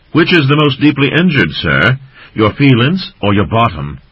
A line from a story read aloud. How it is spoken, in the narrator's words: Runktip called out